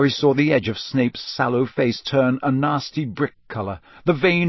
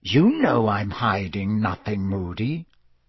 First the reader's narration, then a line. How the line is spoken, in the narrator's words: he said in a soft and dangerous voice